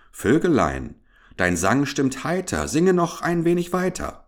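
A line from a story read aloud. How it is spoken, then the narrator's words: Calling out. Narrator (German): eine Stimme rief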